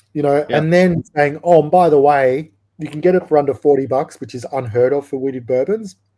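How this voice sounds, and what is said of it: Australian accent. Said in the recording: “if you haven't gathered from the accent, it's from Australia”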